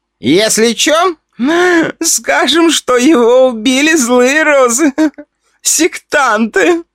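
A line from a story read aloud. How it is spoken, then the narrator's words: Drunken voice. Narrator (Russian): одна из бьющих пьяным голосом сказала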